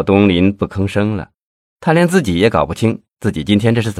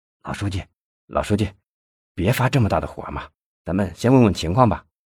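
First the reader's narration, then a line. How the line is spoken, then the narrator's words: Low voice. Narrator (Chinese): 文艺低声说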